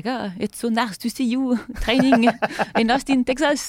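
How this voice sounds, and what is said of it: Mocking French accent. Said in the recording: “you doing a mocking and French accent is hilarious.”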